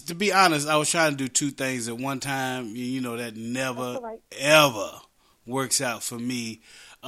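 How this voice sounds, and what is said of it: West Virginia accent. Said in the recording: “my West Virginia accent”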